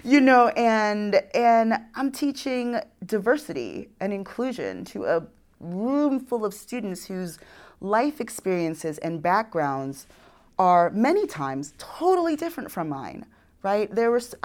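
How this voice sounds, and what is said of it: New York accent. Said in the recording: “my New York accent. Like, it was stronger before.”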